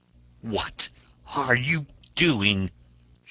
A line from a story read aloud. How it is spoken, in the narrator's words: she cried vehemently